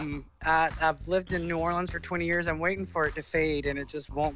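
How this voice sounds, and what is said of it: Southern American accent. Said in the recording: “accent is so good ... a really good Southern accent that's just the best.”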